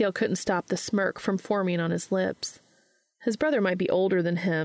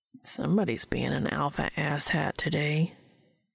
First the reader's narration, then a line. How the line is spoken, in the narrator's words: he muttered under his breath